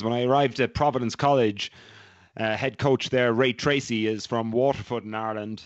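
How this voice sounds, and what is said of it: Strong Irish accent. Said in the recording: “that really is a sexy accent. That is from the great country of Ireland ... You've not lost that at all since you arrived stateside ... It is still as robust as it was”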